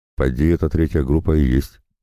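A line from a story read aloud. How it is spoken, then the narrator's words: Plain reply. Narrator (Russian): ответили ему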